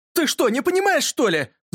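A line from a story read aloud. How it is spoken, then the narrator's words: Shouting. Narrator (Russian): закричал Юрка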